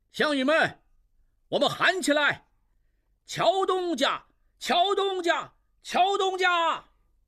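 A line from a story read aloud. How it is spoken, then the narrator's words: Crowd shouting repeatedly. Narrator (Chinese): 众人随他一声声高喊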